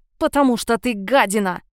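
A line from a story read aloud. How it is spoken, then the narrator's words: Through gritted teeth. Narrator (Russian): процедила сквозь зубы Марго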